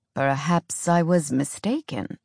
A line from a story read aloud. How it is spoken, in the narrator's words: the king murmured